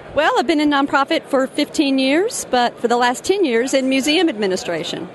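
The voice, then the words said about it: Southern US accent. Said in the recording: “North Carolina accent there? ... Alabama.”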